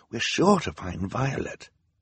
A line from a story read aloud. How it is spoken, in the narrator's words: Klaus whispered to his sister